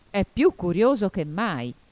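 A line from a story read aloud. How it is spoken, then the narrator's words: Griffin exclaiming. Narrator (Italian): esclamò il grifone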